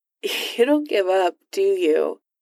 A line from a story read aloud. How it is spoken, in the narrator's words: Iron Man laughed again